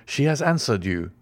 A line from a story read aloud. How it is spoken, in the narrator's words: cried Franz